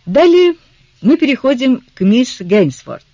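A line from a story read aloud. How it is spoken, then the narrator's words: Impassive, even voice. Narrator (Russian): тем же бесстрастным голосом продолжал инспектор Ален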